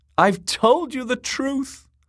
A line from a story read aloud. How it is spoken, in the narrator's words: the singer sobbed